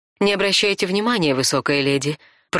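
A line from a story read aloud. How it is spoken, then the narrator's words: Purring. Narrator (Russian): промурлыкала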